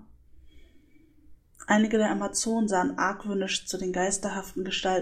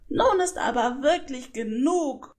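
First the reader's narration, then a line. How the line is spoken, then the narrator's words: Angry shout. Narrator (German): rief sie zutiefst verärgert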